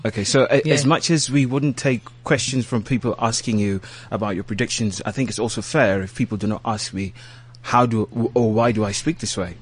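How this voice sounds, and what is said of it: British-sounding accent. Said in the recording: “your accent ... you sound so British”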